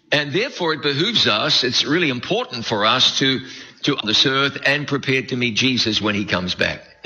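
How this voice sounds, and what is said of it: New Zealand accent. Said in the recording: “a real southern accent... My accent comes from New Zealand.”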